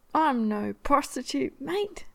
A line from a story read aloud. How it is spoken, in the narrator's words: Steed exclaims